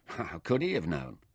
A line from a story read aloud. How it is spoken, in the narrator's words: Nefer replied